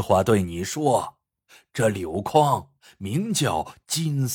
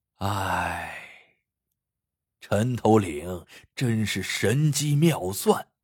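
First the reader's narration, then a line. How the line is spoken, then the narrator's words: Old man's long sigh. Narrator (Chinese): 老头听了，长叹道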